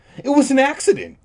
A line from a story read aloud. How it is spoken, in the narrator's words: Todd said impatiently